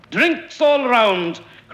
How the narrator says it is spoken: cried Bob the Fiddle, a small, absconding man

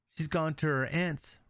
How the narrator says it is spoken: replied the stepmother

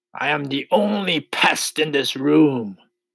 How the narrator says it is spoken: cried the centipede, still grinning away

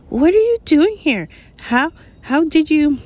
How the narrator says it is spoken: squealed Hermione

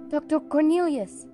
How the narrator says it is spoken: cried Caspian with joy

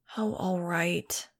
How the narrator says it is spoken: muttered

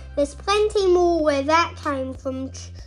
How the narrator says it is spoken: chirped Mole

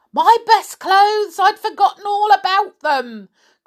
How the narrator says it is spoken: cried the old woman

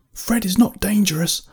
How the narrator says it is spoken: I yelled

